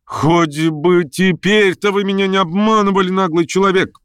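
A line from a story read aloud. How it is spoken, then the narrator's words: Involuntary, almost loud outburst. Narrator (Russian): Вырвалось у ней почти громко, так что в публике услышали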